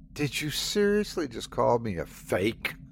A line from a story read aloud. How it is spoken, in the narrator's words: Sandy spat